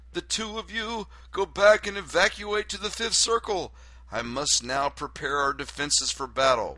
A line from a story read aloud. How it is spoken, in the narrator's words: yells